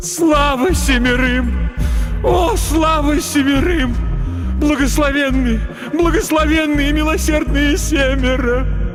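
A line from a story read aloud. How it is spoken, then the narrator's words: Continuous sobbing. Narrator (Russian): Она все рыдала и рыдала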